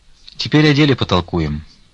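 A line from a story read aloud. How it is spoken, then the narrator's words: Calm voice. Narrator (Russian): сказал он спокойным голосом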